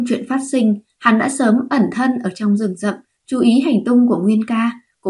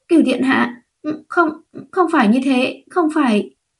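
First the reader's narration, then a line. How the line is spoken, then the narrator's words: Frightened, trembling. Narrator (Vietnamese): Triệu Nguyệt Yến hoảng sợ, run rẩy nói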